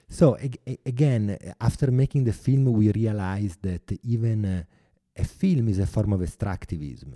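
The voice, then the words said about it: Italian-accented English. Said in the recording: “I apologize for my bad accent. ... Your Italian accent is nothing to apologize for.”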